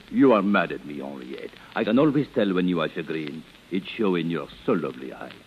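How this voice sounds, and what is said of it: Phony foreign accent. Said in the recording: “suppose you drop the phony accent”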